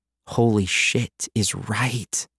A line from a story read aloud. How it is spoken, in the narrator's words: I breathed